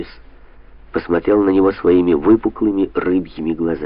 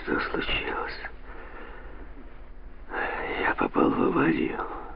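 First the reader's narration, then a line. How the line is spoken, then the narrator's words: Barely audible wheeze. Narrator (Russian): еле слышно прохрипел он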